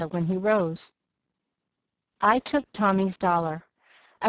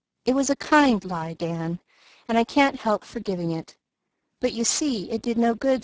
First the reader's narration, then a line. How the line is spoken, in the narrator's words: said Mr